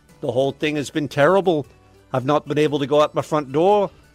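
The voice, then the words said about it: Put-on accent that worsens. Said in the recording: “How'd the accent get worse? ... Started pretty good. ... Started at a 10, and at the end of that story was a 4.”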